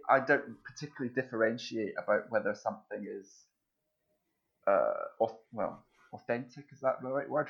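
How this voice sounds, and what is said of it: Scottish accent. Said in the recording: “I'm taking it from the accent, you grew up in Scotland.”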